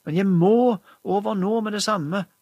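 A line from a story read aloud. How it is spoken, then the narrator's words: Count's desperate shout. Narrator (Norwegian): ropte greven fortvilet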